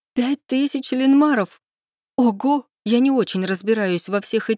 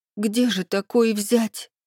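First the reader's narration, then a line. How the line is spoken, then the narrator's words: Breathless exhale. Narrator (Russian): выдохнула я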